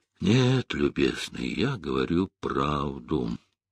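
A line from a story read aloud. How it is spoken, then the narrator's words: Old man, hollow voice. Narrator (Russian): глухо сказал старик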